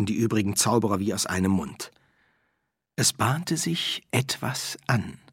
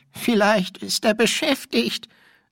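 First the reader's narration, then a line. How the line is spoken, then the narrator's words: Trembling voice. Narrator (German): brachte der Quästor mit zittriger Stimme hervor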